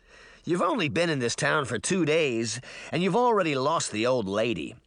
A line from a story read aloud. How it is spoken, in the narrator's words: the boy said bitterly